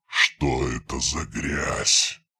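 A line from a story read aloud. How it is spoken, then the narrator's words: Furious hiss. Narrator (Russian): прошипел он, и в его голосе заклокотала ярость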